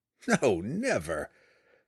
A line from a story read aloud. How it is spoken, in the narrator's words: Drizzt laughed